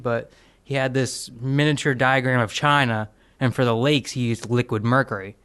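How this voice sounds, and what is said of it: Put-on redneck accent. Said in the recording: “I don't know why I had a redneck accent for that.”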